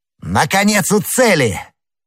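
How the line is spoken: Shout. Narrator (Russian): Д'Артаньян закричал

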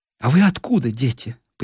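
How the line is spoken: Curious question. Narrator (Russian): поинтересовалась Нина

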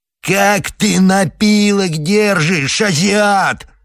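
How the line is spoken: Yelling. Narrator (Russian): орал Худалеев

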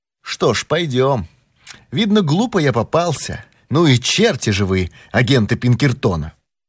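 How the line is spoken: Fairly calm. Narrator (Russian): сказал довольно спокойно

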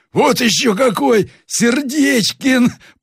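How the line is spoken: Loud laughter. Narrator (Russian): прервала громким хохотом

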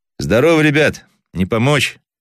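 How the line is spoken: Loud warm question. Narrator (Russian): громко спросил Кудрявцев, чувствуя в груди теплоту к этим людям

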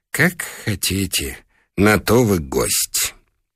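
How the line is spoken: Sighing whisper. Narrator (Russian): Хозяин вздохнул и прошептал

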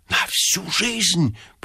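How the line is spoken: Whispered. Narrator (Russian): прошептал Ипполит Матвеевич

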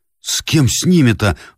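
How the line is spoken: Pleading. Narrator (Russian): взмолился Андрей Петрович

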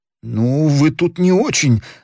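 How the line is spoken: Trembling voice. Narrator (Russian): дрожащим голосом сказал Мордотенков

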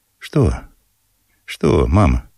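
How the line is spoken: Tender question. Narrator (Russian): спросил он нежно

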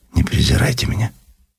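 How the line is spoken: Lowered quiet voice. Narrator (Russian): понизив голос, тихо добавила

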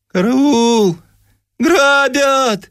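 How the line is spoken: Thin piercing shout. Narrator (Russian): Вася Чесноков закричал тонким, пронзительным голосом

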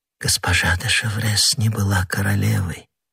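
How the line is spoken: Moved whisper. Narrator (Russian): прошептала Анна Австрийская, не в силах устоять перед выражением такого глубокого чувства

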